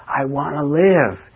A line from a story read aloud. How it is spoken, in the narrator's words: shouted over and over again